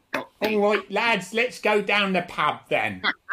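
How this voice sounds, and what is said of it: Weak attempt at a Cockney accent. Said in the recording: “you haven't got a very good Cockney accent ... give us your Cockney accent ... I'm just terrible ... It ain't working. It's not working, is it?”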